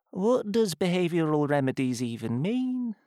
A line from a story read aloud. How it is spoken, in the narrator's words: mumbled Pieface